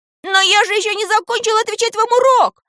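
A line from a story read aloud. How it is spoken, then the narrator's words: Boy shouting with all strength. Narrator (Russian): изо всех сил крикнул мальчик в ответ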